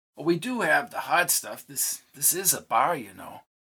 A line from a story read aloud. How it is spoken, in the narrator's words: asked, and then he whispered